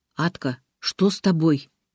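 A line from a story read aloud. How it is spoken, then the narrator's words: Quiet question. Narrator (Russian): тихо спросила Маша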